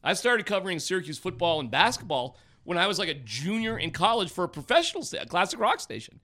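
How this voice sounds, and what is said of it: Voice rising high in pitch. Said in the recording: “my voice is going way up”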